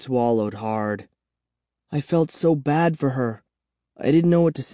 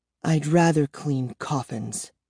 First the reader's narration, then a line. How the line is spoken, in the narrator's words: murmured bitterly